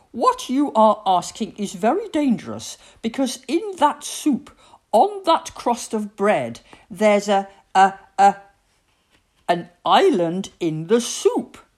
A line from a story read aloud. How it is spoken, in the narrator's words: exclaimed Mum